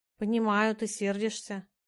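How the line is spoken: Hesitant. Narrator (Russian): неуверенно начала

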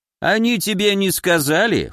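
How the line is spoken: Wry grunt. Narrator (Russian): хмыкнул фантом

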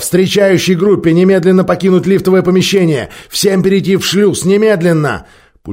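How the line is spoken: Shouting. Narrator (Russian): закричал

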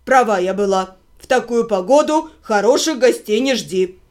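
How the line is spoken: Displeased grumble. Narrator (Russian): буркнула Дора, даже не пытаясь скрыть своего недовольства

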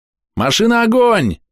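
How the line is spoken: Group shouting. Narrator (Russian): закричали ребята

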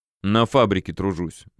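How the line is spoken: Reluctant grumble. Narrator (Russian): будто нехотя пробурчал

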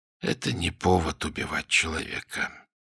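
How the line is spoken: Quiet, self-persuading. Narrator (Russian): произнес он тихим голосом, будто убеждая себя самого

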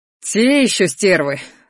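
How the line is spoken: Scornful snort. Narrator (Russian): фыркнул Шейрон

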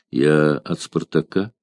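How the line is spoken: Quiet reply. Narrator (Russian): тихо ответил Арторикс

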